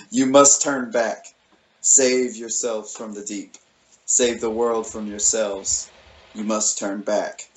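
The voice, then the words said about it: Booming sea monster character voice. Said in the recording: “I'm not going to do a Leviathan voice”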